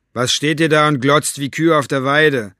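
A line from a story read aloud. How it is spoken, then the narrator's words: Called out. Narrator (German): rief Capricorn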